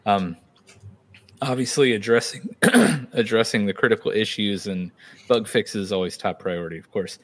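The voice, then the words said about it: Hoarse, strained voice. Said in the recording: “sorry, I'm like uh, losing my voice over here”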